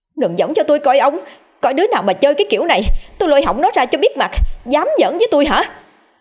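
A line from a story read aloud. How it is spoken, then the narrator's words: Shouting angrily. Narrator (Vietnamese): Bà lụa la lên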